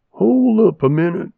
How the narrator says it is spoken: said

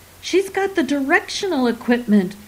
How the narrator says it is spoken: Cromlech screamed over his shoulder

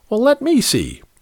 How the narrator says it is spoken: he exclaimed

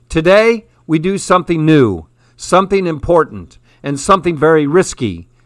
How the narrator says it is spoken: roared in a bell-clear voice

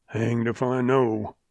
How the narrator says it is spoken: growled the oldster irritably

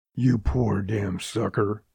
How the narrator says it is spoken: he whispered at the kid through clenched teeth

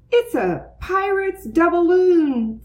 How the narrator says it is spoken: Francine shouted

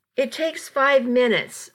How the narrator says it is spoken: I shouted

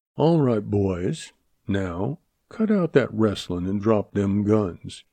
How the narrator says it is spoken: he drawled

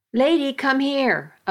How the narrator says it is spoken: a voice called out

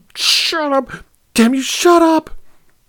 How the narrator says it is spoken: Her eyes blazed, and she cried

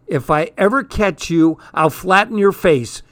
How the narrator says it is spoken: hollered

